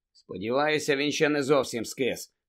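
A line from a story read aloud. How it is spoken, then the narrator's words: Gloomy grumble. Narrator (Ukrainian): невесело буркнув Фред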